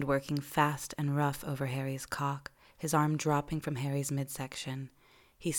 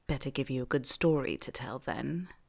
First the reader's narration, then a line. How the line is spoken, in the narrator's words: Malfoy murmurs